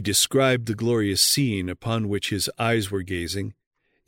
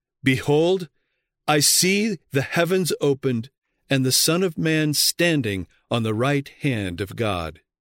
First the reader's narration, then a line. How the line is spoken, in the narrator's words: In words of triumph, Stephen exclaimed